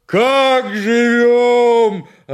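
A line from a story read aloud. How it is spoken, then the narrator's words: Yelling. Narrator (Russian): опять завопил Семен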